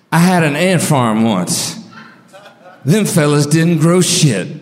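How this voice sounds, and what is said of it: Impression of comedian Mitch Hedberg. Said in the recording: “I'm going to do another Mitch joke. And when I do his voice”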